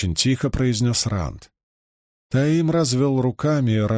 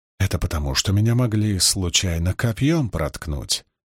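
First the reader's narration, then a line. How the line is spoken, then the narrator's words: Plain. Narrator (Russian): сказал Таим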